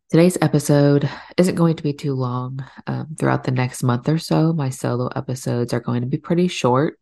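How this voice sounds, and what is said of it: Slightly off, sick-sounding voice. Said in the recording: “first round of sickness in my household all the runny noses, coughs, sore throats ... my voice sounds a little off today”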